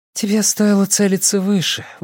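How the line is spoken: Breathed out, young woman. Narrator (Russian): выдохнула девушка

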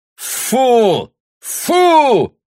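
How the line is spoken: Shout. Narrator (Russian): крикнул Бруно

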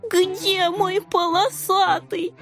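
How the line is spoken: Whimpering. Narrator (Russian): Захныкал рыжий

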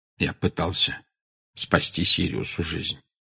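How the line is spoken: Quiet answer. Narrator (Russian): тихо ответил Дамблдор

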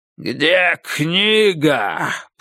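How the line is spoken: Growl. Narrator (Russian): прорычал самый крупный

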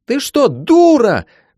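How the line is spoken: Full-throated scream. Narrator (Russian): благим матом заорала Ирина

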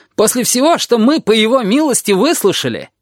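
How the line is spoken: Groaning. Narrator (Russian): Гомер застонал

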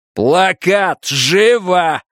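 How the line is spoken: Menacing bark. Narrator (Russian): рявкнул детектив тоном, способным напугать каждого, кто хотя бы немного знал его противоречивое прошлое

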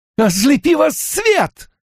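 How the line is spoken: Shouted. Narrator (Russian): выкрикнула она

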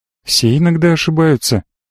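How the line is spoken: Confident and gentle. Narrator (Russian): она говорила уверенно и мягко

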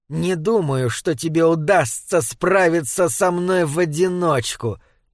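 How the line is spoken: Muttered through gritted teeth. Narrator (Russian): процедил водолазка

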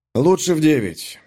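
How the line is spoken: Relieved sigh. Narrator (Russian): облегченно вздохнув, ответил я

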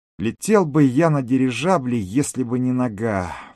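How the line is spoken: Sighing. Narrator (Russian): вздохнул Миша

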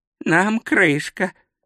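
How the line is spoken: Muttering. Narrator (Russian): пробормотал Ринсвинд

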